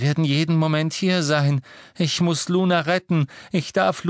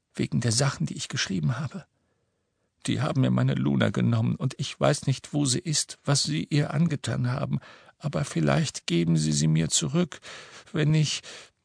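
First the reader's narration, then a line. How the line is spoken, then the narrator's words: Whisper. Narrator (German): flüsterte er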